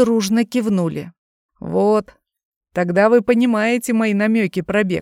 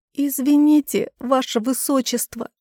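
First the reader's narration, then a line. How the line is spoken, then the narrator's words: Pitiful sob. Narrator (Russian): жалостливо всхлипнула девица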